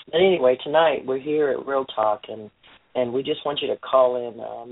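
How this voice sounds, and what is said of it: Congested voice with a cold. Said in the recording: “I have a cold,”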